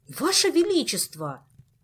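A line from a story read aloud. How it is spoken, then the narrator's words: Indignant. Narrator (Russian): Возмущенно изрек Шут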